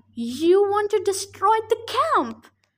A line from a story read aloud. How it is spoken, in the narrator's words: she yelled